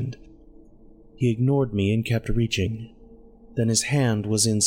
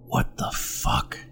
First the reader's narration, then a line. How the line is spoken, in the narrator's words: he whispered